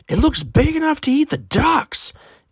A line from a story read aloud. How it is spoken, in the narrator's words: Aiden's aunt exclaimed